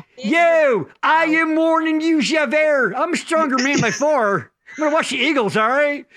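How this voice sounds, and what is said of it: Put-on Delco accent. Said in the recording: “sing all the musicals to you in a Delco accent.”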